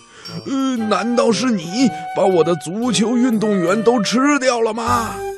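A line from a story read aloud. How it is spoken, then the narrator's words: Angry roar. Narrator (Chinese): 布鲁姆博士非常生气，他……大声地吼了起来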